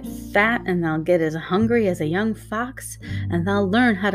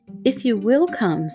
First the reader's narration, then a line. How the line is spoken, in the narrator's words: said Mary